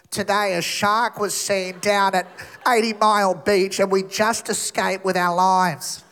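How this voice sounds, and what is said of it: Exaggerated nasal Australian newsreader accent. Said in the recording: “accent is the worst... We sound like we're perpetually holding our nose... Aussie news”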